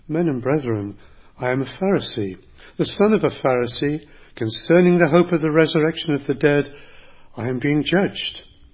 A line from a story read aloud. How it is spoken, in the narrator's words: he cried out in the council